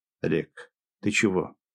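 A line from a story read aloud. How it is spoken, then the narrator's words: Quiet surprised question. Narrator (Russian): тихим голосом удивленно спросил полковник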